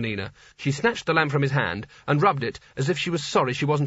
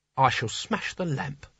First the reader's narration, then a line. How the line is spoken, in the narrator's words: said quietly